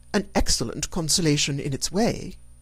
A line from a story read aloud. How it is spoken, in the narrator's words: said Elizabeth